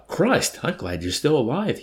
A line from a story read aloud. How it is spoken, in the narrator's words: he exclaimed, heaving an enormous sigh